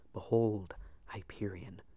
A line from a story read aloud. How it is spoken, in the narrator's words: whispered my patron